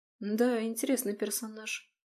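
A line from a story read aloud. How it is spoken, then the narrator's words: Drawled. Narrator (Russian): протянула я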